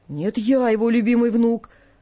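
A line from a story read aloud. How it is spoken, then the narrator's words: Sudden puffed-up bass voice. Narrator (Russian): вдруг, надувшись басом, говорил Жоржик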